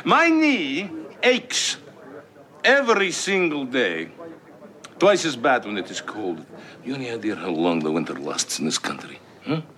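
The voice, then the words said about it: Put-on Russian accent. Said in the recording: “that's how you do a Russian accent, and while not being Russian”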